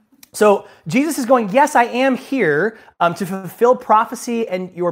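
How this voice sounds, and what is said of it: Usual voice. Nothing is said of it.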